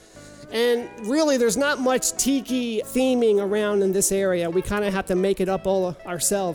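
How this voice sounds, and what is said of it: Baltimore-area accent. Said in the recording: “I am sure a lot of you can tell from this accent of mine that we are from the Baltimore area”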